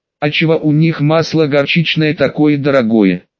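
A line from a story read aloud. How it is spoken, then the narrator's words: Plain. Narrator (Russian): спросила Марина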